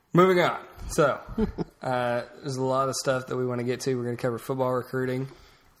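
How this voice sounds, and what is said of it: Sick, sore-throated voice. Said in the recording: “I don't know if you can tell by my voice, I'm a little under the weather today... Throat's hurting a little bit.”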